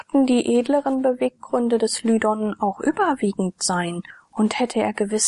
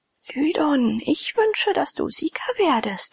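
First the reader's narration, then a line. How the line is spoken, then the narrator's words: Woman whispering. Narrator (German): flüsterte ein hübsches Weib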